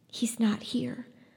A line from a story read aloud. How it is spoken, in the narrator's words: whispered Lena